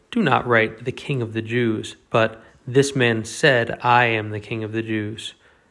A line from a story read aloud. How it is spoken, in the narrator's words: Pilate answered